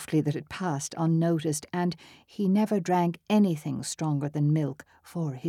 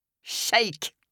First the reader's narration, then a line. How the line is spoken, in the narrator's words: Bell laughed at his fellow sufferer, held out his hand and said